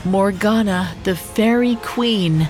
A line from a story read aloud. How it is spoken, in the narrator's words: the green-eyed woman said, almost wistfully